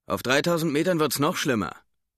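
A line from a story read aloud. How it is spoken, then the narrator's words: Teeth-gritted shout. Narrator (German): rief der Pilot zähneknirschend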